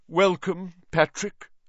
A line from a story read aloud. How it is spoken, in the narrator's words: said Nick stiffly